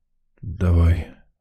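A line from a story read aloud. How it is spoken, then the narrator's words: Hoarse reply. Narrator (Russian): Также с хрипотцой ответил Сидор Кузьмич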